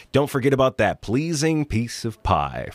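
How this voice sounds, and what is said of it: NPR-style radio announcer voice. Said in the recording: “Had to briefly bring out that NPR voice. ... 5 syllables per second. Go! The NPR pace.”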